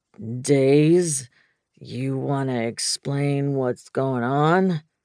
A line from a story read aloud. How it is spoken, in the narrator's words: Knox drawled